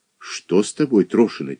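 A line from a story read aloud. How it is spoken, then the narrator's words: Quiet question. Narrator (Russian): тихо спросила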